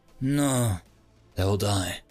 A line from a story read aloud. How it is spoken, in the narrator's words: Tic-Tac sighed